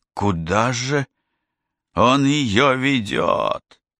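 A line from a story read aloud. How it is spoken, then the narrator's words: Through gritted teeth. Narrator (Russian): процедил сквозь зубы Джо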